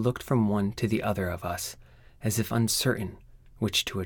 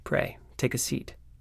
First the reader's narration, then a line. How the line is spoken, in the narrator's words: said Holmes